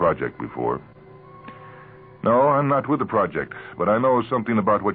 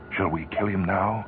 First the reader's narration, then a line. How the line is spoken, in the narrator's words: He whispered to Peters